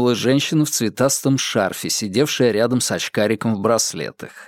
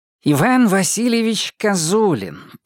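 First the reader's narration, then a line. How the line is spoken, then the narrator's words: Nasal voice. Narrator (Russian): прогнусавил он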